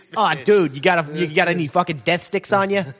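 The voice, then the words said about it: Put-on Boston accent. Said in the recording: “Space Boston ... With a Boston accent in outer space.”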